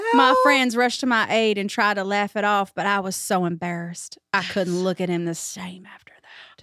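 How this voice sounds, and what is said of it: Put-on Southern accent. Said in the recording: “the accent, that is so Southern and I love it so much”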